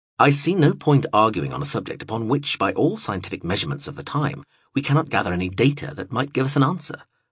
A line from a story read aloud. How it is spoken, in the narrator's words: replied